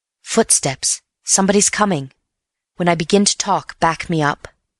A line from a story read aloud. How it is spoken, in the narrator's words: whispered in his ear